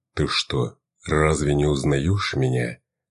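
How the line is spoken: Low male voice. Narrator (Russian): спросил инфернал низким мужским голосом

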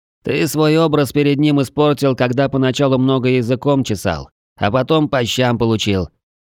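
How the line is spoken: Grumbling, barely restrained irritation. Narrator (Russian): едва сдерживая раздражение, проворчал Глаз

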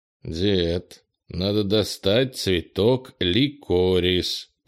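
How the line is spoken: Through gritted teeth. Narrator (Russian): процедил Кенни

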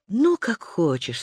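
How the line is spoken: Sweet voice. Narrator (Russian): сладким голосом сказала Иоланта

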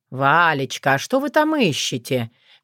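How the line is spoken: Honeyed sweet voice. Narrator (Russian): медоточивым голосом уточнил он

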